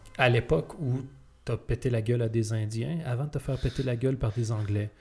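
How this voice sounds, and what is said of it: Québécois French accent. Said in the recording (French): “j'avais jamais voulu changer mon accent ... parler un français différent ... qu'on me dise « t'as un accent »”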